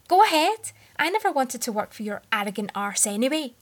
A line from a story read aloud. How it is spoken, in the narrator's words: he stood and yelled